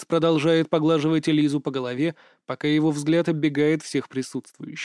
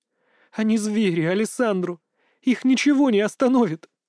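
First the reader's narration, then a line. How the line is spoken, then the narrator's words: Woman sobbing. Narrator (Russian): У женщины вырывается короткое рыдание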